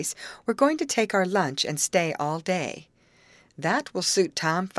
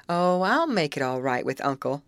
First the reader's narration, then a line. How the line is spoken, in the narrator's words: laughed Amy